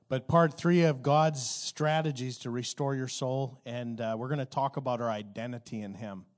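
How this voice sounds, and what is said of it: Voice slightly off, recovering from illness. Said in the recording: “My voice is a little off, and I have a little bit of recovering from something”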